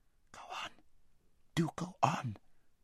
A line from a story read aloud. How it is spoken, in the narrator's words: whispered Arivis, whose heart was beating terribly, and who still felt that her father might run into them at any corner